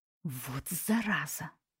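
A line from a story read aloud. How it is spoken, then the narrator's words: Hissed. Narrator (Russian): прошипела я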